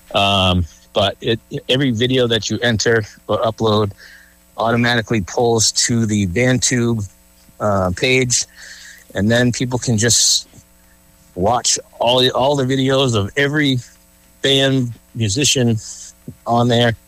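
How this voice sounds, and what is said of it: Out of breath. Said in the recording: “Sorry if I'm out of breath.”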